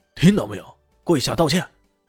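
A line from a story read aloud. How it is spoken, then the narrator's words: Angry glare, angry. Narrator (Chinese): 听到李炫如此语气啊，豹哥的豹眼一瞪，怒道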